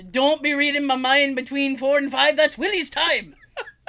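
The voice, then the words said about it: Put-on Scottish accent. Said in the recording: “I can't do a great Scottish accent ... That was good.”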